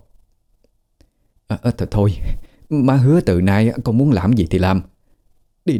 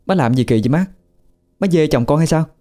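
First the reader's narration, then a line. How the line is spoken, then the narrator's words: Shouting in irritation. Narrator (Vietnamese): Tú thấy chướng mắt nên la lên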